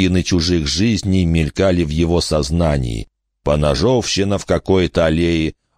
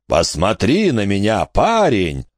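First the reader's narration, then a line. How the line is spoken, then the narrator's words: Roaring. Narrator (Russian): проревел меняющий облик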